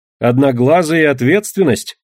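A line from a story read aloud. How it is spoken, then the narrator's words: Wry snort. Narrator (Russian): хмыкнула я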